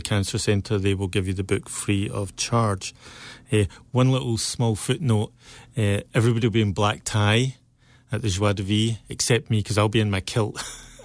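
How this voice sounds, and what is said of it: Scottish accent. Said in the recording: “I guess I've still got my Scottish accent”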